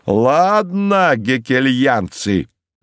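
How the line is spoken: Shout. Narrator (Russian): закричал он

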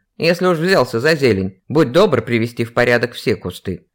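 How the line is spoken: Man's grumble. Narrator (Russian): проворчал мужчина

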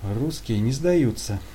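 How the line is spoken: Grumble. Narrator (Russian): буркнул Алексей

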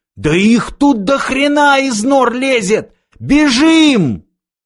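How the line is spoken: Sudden wild frantic yell. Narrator (Russian): вдруг заорал дурным голосом

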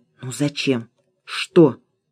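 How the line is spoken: Whisper. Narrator (Russian): Алена шепнула Оле

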